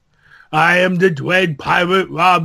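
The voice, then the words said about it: Andre the Giant impression. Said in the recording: “my Andre impersonation from Princess Bride ... You need to be more incoherent. I understood every word you said.”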